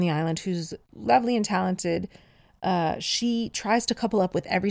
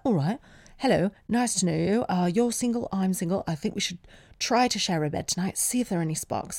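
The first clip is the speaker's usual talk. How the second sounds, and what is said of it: Put-on posh English accent. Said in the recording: “She got more posh as the time went on. In my accent, not in the show, but just the way I'm doing her accent”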